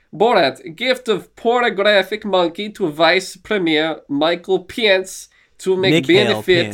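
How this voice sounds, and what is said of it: Attempted Borat character voice. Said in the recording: “I'm gonna try to do it in a Borat voice that may not go so well”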